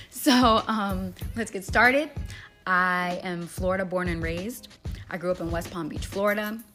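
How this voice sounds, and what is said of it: Messed-up, strained voice. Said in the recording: “My voice is all kinds of messed up.”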